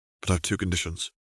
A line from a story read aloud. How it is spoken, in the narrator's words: he murmured